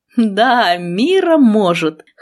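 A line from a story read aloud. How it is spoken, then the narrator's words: Chuckling. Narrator (Russian): хохотнул профессор Ригар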